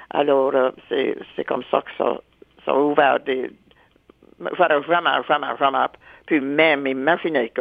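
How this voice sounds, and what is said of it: Acadian French accent. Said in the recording (French): “mon accent acadien, surtout celle de la baie Sainte-Marie ... tu as un différent accent”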